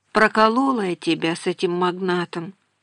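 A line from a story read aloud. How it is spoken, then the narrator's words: Sad wry laugh. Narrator (Russian): грустно усмехнулась она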